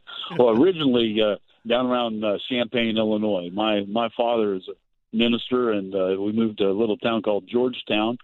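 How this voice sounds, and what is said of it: Regional Midwestern American accent. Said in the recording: “judging by your accent, you come from someplace, Rochester or Point South”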